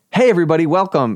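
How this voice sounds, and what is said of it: Perky, upbeat preacher-style intro voice. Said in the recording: “that was your intro voice ... That's your preacher voice. ... You perk up when you do it too.”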